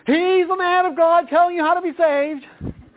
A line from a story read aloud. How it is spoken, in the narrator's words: someone would shout out